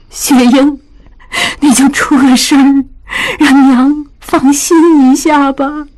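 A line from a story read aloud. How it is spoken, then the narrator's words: Crying. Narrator (Chinese): 江母哭道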